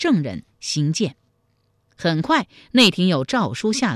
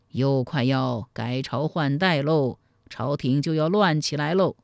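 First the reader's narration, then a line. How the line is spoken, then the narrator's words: Old people sighing. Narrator (Chinese): 有些七八十岁的老人……见状无不叹息说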